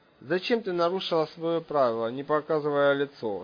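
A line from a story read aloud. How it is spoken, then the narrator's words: Quiet question. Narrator (Russian): тихо спросил Антонов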